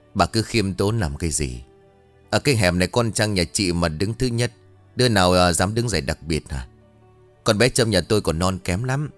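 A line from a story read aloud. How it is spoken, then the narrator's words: Sneering reply. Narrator (Vietnamese): Bà Hạnh cười khẩy đáp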